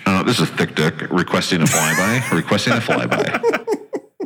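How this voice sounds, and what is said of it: Intercom announcement voice. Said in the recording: “in a intercom voice”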